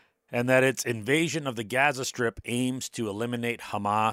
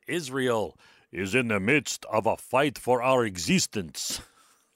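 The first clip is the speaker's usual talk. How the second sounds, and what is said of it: Imitates another person's voice. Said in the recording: “That's my Benjamin Netanyahu impersonation.”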